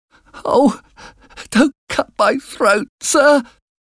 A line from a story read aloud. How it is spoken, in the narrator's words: cried